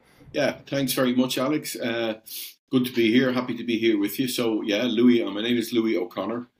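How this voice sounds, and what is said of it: Irish accent. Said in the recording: “You can probably tell from the accent, I'm over the other side of the pond. ... I'm Irish”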